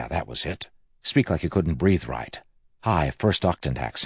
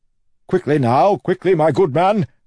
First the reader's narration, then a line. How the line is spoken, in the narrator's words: Wayne shouted